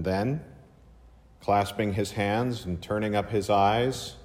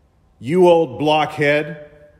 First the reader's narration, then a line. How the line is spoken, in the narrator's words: again roared out